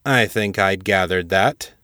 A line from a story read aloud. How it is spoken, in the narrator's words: Colonel Pierce said dryly